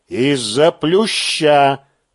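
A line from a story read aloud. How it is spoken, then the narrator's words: Solemn repetition. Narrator (Russian): торжественно повторяю я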